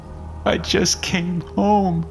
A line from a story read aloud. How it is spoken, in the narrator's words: she managed between sobs